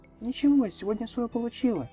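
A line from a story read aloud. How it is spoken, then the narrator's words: Cheerful. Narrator (Russian): весело произнесла Ренти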